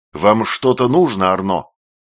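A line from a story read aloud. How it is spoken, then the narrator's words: Irritated question. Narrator (Russian): спросил он раздраженно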